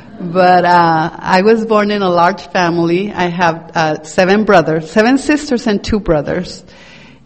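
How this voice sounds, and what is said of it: Mexican accent. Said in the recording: “I was born in Mexico. I know you can't tell because of my accent.”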